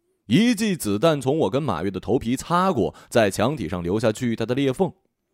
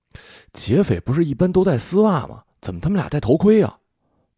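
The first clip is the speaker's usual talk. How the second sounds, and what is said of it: Quiet, hushed speech. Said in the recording (Chinese): “小声问马月”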